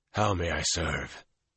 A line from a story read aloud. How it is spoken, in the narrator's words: he said hoarsely